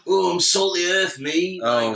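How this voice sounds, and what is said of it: Attempted Yorkshire accent. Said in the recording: “Shall I attempt to do a northern accent? ... they were like Yorkshire.”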